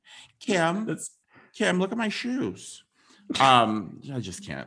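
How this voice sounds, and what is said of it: Caitlyn Jenner impression. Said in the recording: “That's actually a really good impression ... Caitlyn Jenner impression”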